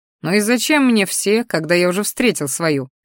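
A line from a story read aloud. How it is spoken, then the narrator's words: Wry snort. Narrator (Russian): хмыкнул я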